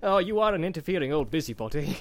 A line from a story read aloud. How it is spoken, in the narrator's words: laughed Bilbo